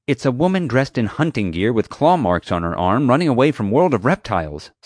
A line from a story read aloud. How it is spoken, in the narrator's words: Summer said angrily